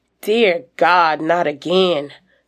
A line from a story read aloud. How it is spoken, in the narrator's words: sighs William